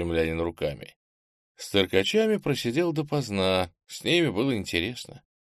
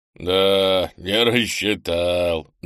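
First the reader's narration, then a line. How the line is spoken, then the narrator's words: Good-natured chuckle, strongman. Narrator (Russian): добродушно хохотнул силач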